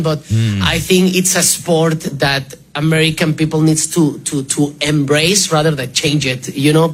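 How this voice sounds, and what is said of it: Noticeable foreign accent. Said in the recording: “when I hear his voice a little bit, he remind me of my guy, Pioline ... when I hear him speak a little bit ... That accent, yeah.”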